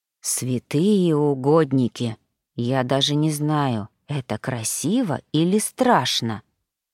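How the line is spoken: Whisper in ear. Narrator (Russian): прошептал Гарри на ухо Бригитте

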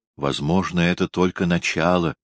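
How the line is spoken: Soft remark. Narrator (Russian): мягко заметила она

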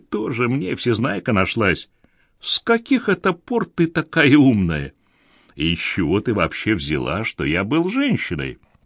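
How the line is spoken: Laughing. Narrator (Russian): Майк рассмеялся

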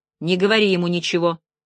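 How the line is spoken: Gloomy warning. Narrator (Russian): мрачно предостерегла блондинка

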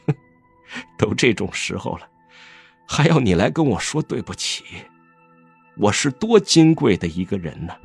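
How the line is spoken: Muffled sneering mockery. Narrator (Chinese): 江城嗤地笑了一声，他闷声嘲讽道

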